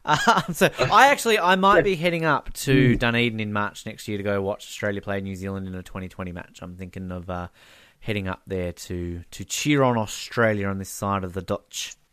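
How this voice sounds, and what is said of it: Australian speaker with Kiwi-tinged accent. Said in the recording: “You're getting good at those Kiwi accents, I tell you.”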